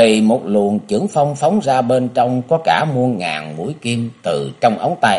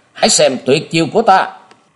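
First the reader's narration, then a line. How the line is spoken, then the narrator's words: Sudden villain's shout. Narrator (Vietnamese): Đột nhiên lão ma đầu hét lên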